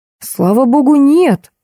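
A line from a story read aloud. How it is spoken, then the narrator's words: Exclaiming. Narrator (Russian): воскликнул ректор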